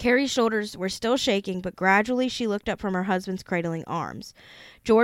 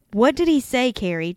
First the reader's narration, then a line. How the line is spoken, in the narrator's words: George asked